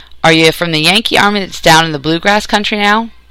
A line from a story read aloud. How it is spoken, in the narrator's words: Charlie sighed in his unhappiness